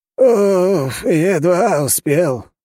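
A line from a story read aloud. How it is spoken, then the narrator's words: Agitated sigh. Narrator (Russian): вздохнул он взволнованно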